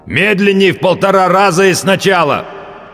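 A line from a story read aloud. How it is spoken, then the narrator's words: Loud growl. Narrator (Russian): прорычал он, как любой человек, забывший, что он в наушниках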